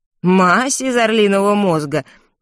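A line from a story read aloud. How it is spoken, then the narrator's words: Repeating while laughing. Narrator (Russian): повторил, смеясь, аптекарь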